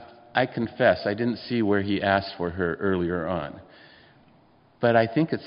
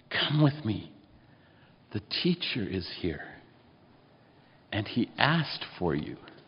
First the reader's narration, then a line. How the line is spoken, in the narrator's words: whispering